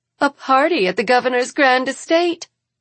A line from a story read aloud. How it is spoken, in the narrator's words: exclaims Jane